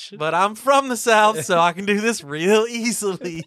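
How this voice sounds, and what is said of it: Put-on Southern accent. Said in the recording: “Southern accent ... I'm going to do my Southern accent.”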